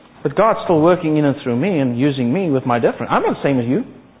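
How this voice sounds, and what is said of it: South African Afrikaans-accented English. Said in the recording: “Speaking with a South African, in South African, English being my second language. First language being Afrikaans. Speaking with an accent”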